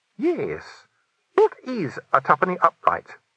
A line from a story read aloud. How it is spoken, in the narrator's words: said Sandra brightly